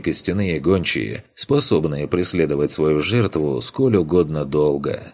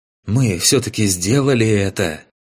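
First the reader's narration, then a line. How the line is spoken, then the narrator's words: Hoarse, catching breath, young man. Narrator (Russian): Немного отдышавшись, хриплым голосом произнес молодой некромант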